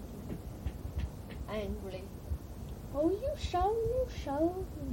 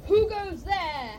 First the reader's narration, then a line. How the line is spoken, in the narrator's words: cried the goblin sentry